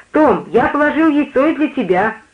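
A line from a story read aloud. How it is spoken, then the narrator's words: Joyful shout. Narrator (Russian): мне доставляло большую радость, если я мог крикнуть соседу по палате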